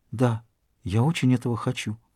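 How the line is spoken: Whispered. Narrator (Russian): Она прошептала

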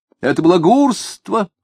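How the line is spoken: Shouting. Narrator (Russian): закричал ему Алябьев

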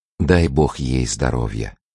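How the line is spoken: Sincere and tender. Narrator (Russian): искренне и нежно сказала Елена

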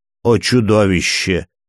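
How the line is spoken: Royal grumble. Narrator (Russian): проворчал его королевское высочество

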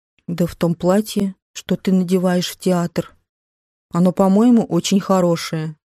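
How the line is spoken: Muttered. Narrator (Russian): Он пробормотал

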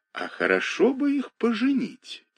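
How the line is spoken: Said quietly. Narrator (Russian): тихо сказала мне директорша

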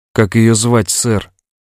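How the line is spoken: Quiet question. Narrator (Russian): тихо спросил Том

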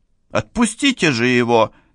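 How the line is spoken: Angry, head cook. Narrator (Russian): сердито сказала старшая кухарка

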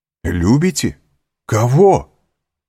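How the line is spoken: Exclaiming. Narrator (Russian): воскликнул Монте-Кристо

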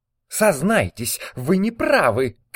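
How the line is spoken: Shouted. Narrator (Russian): крикнула Варя

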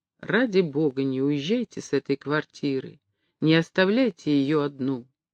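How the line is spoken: Whisper in the ear. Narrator (Russian): шепнул ему на ухо

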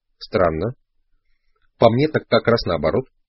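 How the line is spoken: Calm. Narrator (Russian): спокойно ответил Дон Хуан

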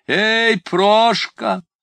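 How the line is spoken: Shout. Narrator (Russian): он закричал

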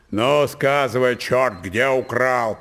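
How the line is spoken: Shouting. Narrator (Russian): прокричал дядь Ерошка

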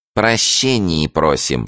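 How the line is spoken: Rotten, nasal voice. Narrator (Russian): сказал провалившийся нос гнилым голосом

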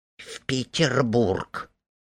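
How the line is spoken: Quiet. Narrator (Russian): Минутка тихо

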